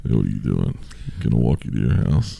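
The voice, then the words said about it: Creepy put-on deep voice. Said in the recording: “be a creepy guy ... you gotta have a real deep voice.”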